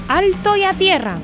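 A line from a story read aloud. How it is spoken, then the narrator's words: Father stork shouting. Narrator (Spanish): papá cigüeña dio un grito diciendo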